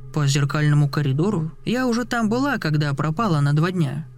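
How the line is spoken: Grumbled. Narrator (Russian): буркнула она

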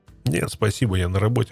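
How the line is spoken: Plain. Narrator (Russian): ответил я

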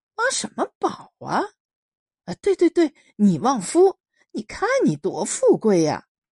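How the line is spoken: Laughing. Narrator (Chinese): 老包笑起来

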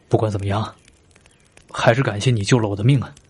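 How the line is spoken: Deep sigh, subdued. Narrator (Chinese): 深深的叹了一口气，沉默了一会儿，对刘尚说道

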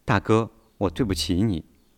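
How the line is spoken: Soft, tearful. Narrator (Chinese): 林美玉 眼睛里闪动着泪珠，轻声地对习近平说

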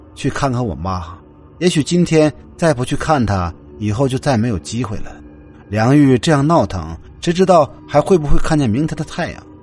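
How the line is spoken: Plain. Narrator (Chinese): 何源说着

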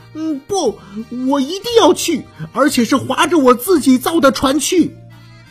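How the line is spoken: Loud. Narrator (Chinese): 活活牙大声地说

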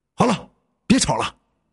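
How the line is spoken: Irritated, through gritted teeth. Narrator (Chinese): 伟文一咬牙，愠怒的

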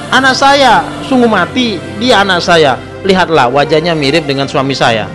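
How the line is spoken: Loud answer. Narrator (Indonesian): perempuan yang gemuk menjawab lantang

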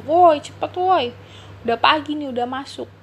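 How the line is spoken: Unclear hurried shouting. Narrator (Indonesian): teriak-teriak tidak jelas, dengan teriakan

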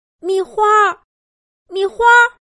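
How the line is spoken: Anxious mother calling. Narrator (Chinese): 猴子妈妈焦急的喊着

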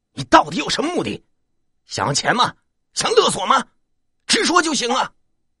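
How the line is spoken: Angry roar. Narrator (Chinese): 方涛吼道

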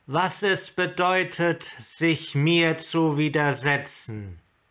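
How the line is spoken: Amplified voice. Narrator (German): sagte sie mit derselben verstärkten Stimme wie zuvor

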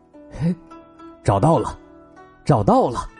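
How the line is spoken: Dazed murmuring. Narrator (Chinese): 蔡伦突然醒过来似的 嘴里喃喃的说

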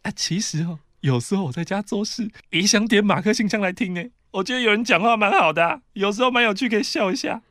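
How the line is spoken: Soft voice. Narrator (Chinese): 妈妈小声的说

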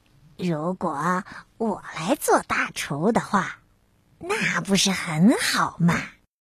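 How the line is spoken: Muttering to himself. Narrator (Chinese): 他喃喃自语说

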